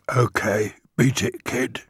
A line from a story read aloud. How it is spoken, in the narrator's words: He murmured